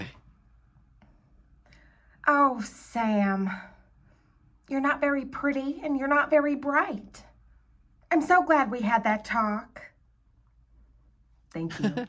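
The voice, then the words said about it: Imitates another person's voice. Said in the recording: “this is my impression of Jennifer Coolidge from A Cinderella Story ... she nailed it ... I thought that was a great Jennifer Coolidge ... Tone was pretty good”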